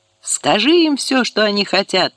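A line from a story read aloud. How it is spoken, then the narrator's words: Shout. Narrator (Russian): закричал Микки Никола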